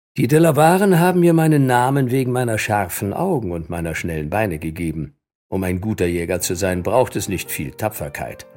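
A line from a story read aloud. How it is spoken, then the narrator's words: Plain answer. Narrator (German): antwortete Wildtöter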